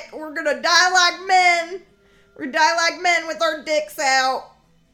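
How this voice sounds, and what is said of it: Poor put-on Southern accent. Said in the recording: “I shouldn't use a southern accent ... sort of poor southern accents”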